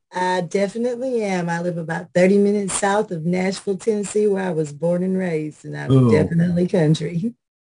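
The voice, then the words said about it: Southern US country accent. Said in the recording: “You sound like your country.”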